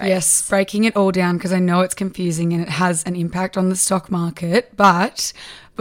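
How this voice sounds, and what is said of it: Husky, strained, nearly lost voice. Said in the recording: “Oh my God, my voice... My voice isn't actually sore. It's just gone. It is just absolutely gone... you're kind of going to get the husky, strained”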